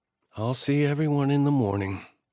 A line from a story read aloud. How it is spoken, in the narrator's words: she said wearily